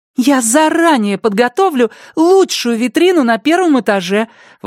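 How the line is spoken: Delighted exclamation. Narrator (Russian): восторженно воскликнула Пенни

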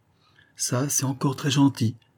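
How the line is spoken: Exclaiming. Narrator (French): s'écria Denisot

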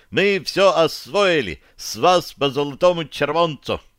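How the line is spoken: Joyful yell. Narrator (Russian): Радостно завопил он

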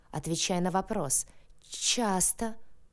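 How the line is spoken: Frightened teeth-chattering babble. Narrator (Russian): пролепетала я, стуча зубами от боли и страха

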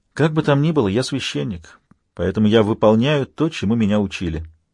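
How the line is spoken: Quiet, sad. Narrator (Russian): Отец Томас печально улыбнулся и тихо добавил

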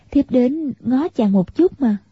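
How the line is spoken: Smiling. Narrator (Vietnamese): Tiểu Long Nữ mỉm cười, nói

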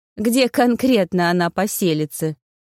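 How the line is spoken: Mocking snort. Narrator (Russian): Насмешливо фыркнула Таня

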